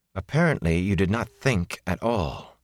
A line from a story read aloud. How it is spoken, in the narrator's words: she said, coolly composed once more